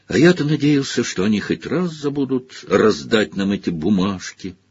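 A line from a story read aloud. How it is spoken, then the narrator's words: Sad remark. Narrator (Russian): грустно заметил Фред Уизли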